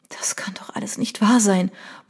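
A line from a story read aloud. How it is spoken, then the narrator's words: Barely audible murmur. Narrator (German): murmelte sie kaum hörbar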